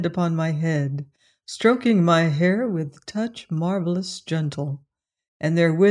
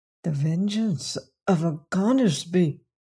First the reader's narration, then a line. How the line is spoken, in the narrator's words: he murmured